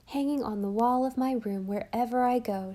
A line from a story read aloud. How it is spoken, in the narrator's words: she said